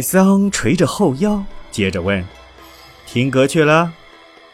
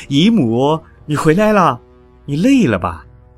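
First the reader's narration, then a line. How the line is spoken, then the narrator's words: Warm hurried calling. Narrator (Chinese): 仁增汪母，慌忙，亲切的叫着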